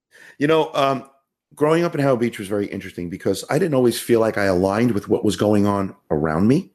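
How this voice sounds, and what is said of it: Queens, New York accent. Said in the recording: “you got the accent ... I do have the accent. It's not nearly as thick as it was ... I sound like I was from Queens, New York”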